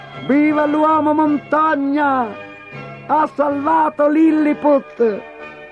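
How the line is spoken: Crowd shouting. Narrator (Italian): gli gridarono

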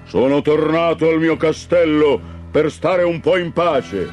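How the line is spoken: Thundered. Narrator (Italian): tuonò

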